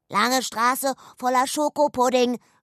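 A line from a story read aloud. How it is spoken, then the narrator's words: Calling back. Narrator (German): rief zurück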